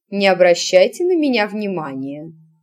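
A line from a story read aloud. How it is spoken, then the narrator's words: Calm reply. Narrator (Russian): спокойно отозвалась матушка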